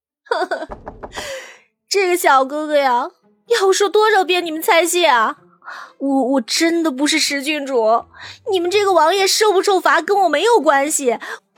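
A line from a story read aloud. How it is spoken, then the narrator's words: Wailing. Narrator (Chinese): 阮流然继续嚎哭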